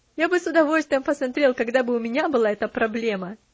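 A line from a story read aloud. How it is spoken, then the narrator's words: Laughing reply. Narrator (Russian): смеясь, ответил он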